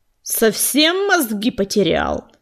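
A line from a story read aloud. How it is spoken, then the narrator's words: Angry growl. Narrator (Russian): зарычал на Огнезвезда бывший глашатай племени теней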